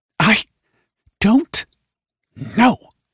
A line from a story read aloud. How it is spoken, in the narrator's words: said through gritted teeth